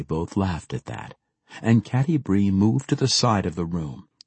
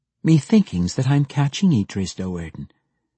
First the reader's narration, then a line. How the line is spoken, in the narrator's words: Catti Bree answered calmly, confidently